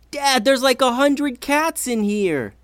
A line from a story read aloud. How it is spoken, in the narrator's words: yelled Ivy